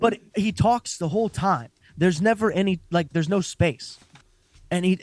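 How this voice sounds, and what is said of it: Usual voice. Nothing is said of it.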